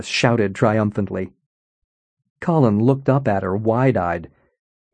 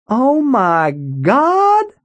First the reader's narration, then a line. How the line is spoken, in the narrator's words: Hollis shouted